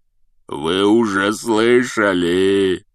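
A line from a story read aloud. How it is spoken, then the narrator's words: Growled. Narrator (Russian): прорычал Хагрид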